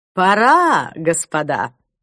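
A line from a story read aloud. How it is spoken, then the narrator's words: Brisk command. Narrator (Russian): бодрым голосом скомандовал Клайв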